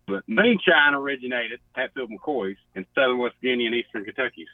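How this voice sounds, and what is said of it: Southern American accent. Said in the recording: “You sound like you're from the South... You got more of a Southern accent than any of us”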